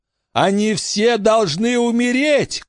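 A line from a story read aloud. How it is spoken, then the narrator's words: Shouted. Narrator (Russian): крикнул он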